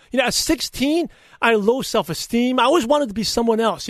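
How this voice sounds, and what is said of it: Brooklyn and Chinese accent, lisp. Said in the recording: “I speak funny ... I have a little Brooklyn accent. I have a Chinese accent. I have a lisp.”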